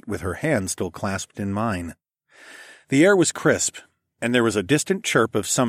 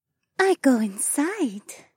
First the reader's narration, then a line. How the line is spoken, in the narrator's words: Adhara purred